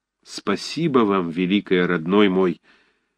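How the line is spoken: Trembling tearful voice. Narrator (Russian): сказал дрожащим голосом, и его глаза вдруг заблестели слезами

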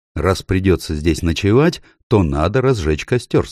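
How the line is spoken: Plain. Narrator (Russian): сказал Питер

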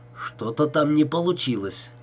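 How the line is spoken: Mumble. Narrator (Russian): пробормотал Босс

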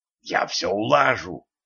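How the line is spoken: Eager whisper. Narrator (Russian): азартно зашептал ликвидатором Ланс

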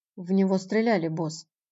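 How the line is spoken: Quiet reply. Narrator (Russian): тихо отозвался Пит

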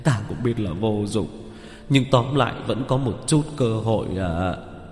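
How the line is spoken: Gloomy sigh. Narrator (Vietnamese): Vẻ mặt của Phương Nhạc nhạc ảm đạm, thở dài

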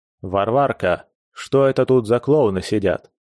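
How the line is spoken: Rude, odd stress, stocky man. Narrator (Russian): Делая ударение на среднем слоге имени, грубо обратился к хозяйке, коренастый китаец

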